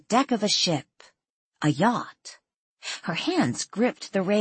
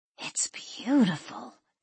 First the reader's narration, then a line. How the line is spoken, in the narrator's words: Danielle whispered